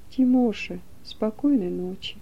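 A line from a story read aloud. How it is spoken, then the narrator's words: Quiet female voice. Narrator (Russian): она ... тихо скажет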